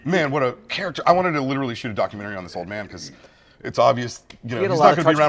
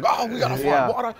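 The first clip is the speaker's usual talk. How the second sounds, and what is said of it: Terrible put-on British accent. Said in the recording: “Oh, he was so British... excuse my terrible British accent.”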